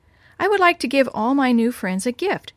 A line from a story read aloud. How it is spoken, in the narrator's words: Gina said